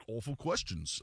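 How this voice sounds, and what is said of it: Poor put-on British accent. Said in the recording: “that was an awful British accent.”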